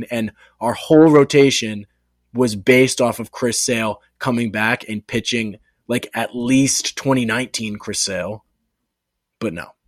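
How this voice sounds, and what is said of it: Out of breath after rant. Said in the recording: “I'm out of breath.”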